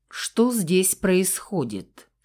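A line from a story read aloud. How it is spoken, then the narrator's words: Calm question. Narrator (Russian): спокойно спросил Альберт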